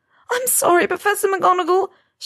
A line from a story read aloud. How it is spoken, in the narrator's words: she sobbed